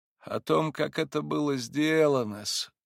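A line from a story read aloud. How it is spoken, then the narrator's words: Sighing. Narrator (Russian): вздохнул Смердяков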